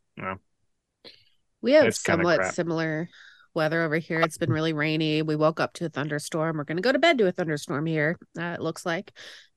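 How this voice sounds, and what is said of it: Nasal, congested voice. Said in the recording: “hear it in my voice, I'm still quite nasally”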